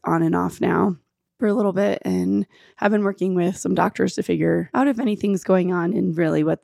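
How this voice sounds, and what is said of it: Scratchy, hoarse voice. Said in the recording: “my voice is a little scratchy ... I have been dealing with losing my voice”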